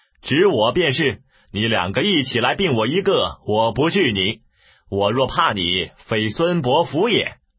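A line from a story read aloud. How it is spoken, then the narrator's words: Laughing. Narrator (Chinese): 策笑曰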